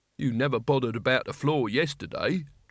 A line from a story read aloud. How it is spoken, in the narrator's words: Truckle grumbled